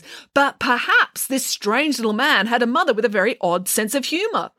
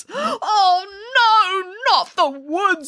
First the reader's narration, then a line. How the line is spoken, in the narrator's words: wailed Boris